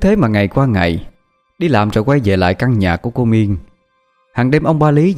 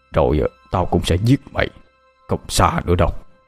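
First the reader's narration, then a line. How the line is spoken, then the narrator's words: Murderous muttering. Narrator (Vietnamese): ông ba Lý ánh mắt như muốn giết người, miệng lẩm bẩm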